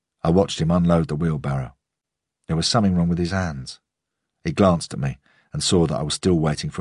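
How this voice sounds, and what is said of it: Usual voice. Nothing is said of it.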